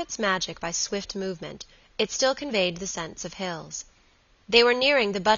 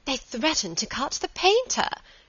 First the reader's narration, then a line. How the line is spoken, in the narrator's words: she cried